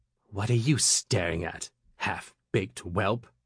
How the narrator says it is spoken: the clerk hissed

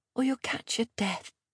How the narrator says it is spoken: she whispered

